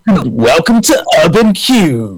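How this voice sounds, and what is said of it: Radio presenter voice. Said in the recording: “I did feel like putting my radio voice on.”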